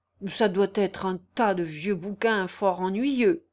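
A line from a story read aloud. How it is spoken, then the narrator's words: Plain. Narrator (French): dit-elle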